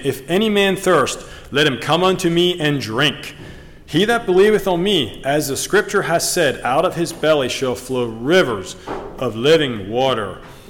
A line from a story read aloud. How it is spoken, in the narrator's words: Jesus stood and cried, saying